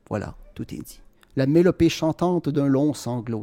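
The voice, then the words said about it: Quebec French accent. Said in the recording (French): “vous pouvez l'entendre par mon accent que je suis de la ville de Québec”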